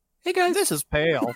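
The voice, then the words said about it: Imitates another person's voice. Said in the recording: “best Pale impression”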